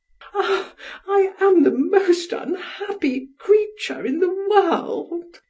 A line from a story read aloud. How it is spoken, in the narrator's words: she sobbed